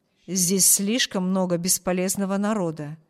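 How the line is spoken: Doctor's rude voice. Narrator (Russian): грубо сказал доктор

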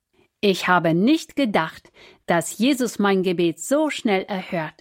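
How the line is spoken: Cheerful. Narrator (German): erzählte Melissa fröhlich

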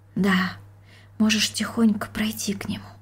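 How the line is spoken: Mother's whisper. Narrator (Russian): прошептала мать

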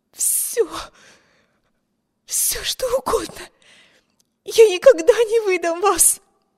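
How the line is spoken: Desperate, breathless. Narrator (Russian): Выдохнула Эми, с жадностью утопающего за надежду

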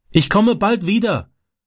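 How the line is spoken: Called through car window. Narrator (German): rief er durchs Autofenster

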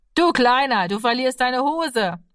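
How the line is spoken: Laughing teasing voice. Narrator (German): Hinter ihm lachte jemand und sagte

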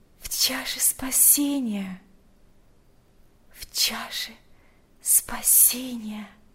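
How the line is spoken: Whispered. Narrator (Russian): прошептала Марфа

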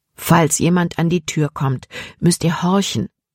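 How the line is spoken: Plain. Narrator (German): sagte Dr

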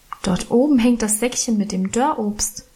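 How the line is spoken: Plain. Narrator (German): sagte ich

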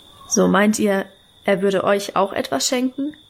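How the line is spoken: Plain question. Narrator (German): fragte er

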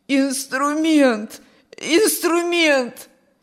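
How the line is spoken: Hoarse wheeze. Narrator (Russian): сипел Петр

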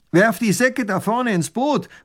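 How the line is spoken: Robber's call. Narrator (German): ruft der Räuber tunichtgut

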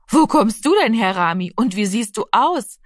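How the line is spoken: Friendly woman laughing. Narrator (German): lachte die freundliche Frau

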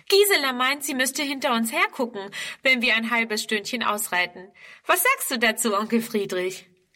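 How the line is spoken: Laughing. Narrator (German): lacht

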